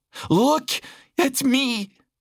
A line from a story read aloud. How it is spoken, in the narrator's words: she pleaded